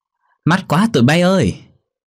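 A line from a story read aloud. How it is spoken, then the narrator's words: Shouting. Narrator (Vietnamese): miệng hét lên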